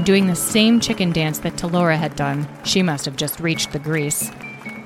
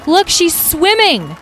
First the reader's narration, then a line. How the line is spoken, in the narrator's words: Someone from the crowd shouted